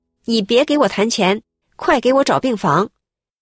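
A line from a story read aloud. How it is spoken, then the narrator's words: Loud, urgent. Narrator (Chinese): 这个病人的家属马上大声的说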